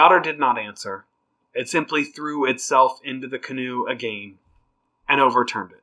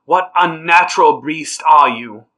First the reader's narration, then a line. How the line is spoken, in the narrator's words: Noodle braced himself and cried